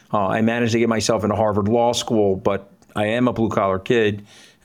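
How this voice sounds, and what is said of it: Working-class regional accent. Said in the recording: “my accent is easily read. You can decidedly discern from my accent that I'm a blue-collar kid”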